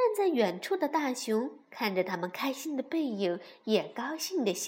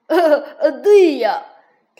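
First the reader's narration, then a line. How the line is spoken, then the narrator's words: Laughing. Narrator (Chinese): 跳跳笑了起来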